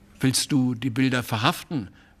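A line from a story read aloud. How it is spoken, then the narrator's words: Plain question. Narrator (German): fragte der Maler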